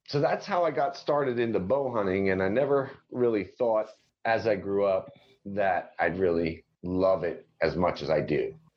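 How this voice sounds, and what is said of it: New Jersey accent. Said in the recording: “You're from Jersey. That's where that accent is from. It's from Jersey.”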